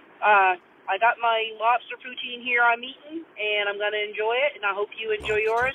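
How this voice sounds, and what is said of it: Nova Scotian accent. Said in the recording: “I love the Nova Scotian accent”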